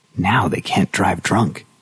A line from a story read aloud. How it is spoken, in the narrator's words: Linda had whispered with satisfaction